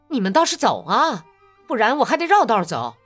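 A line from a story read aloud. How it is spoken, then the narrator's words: Angry woman. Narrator (Chinese): 一个女人怒冲冲地朝他们说道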